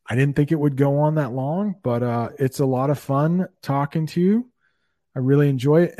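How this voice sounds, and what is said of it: Clear, neutral American accent. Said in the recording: “the perfect American accent to imitate, it would be definitely yours. It's cool and clear ... I tried to get a kind of a neutral accent”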